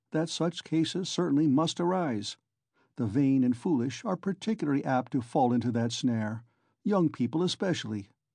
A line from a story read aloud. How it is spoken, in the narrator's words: he went on calmly